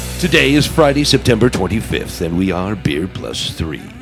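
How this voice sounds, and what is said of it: Usual voice. Nothing is said of it.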